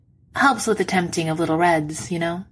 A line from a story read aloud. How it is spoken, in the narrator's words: he says cheerfully